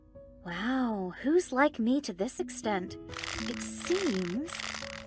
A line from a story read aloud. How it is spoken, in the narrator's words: whispered